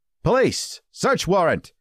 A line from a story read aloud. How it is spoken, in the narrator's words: Viejo yelled